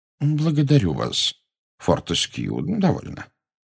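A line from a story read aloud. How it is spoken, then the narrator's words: Gentle but firm. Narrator (Russian): мягко осадил его Дамблдор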